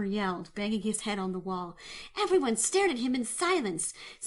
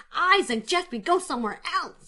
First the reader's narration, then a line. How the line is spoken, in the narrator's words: he exclaimed